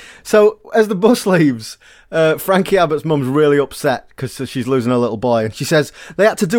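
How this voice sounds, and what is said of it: Usual voice. Nothing is said of it.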